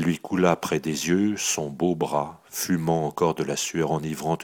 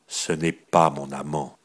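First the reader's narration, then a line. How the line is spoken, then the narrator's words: Cold, unfeeling. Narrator (French): fit-elle froidement avec l'insensibilité du bronze à l'outrage de cette supposition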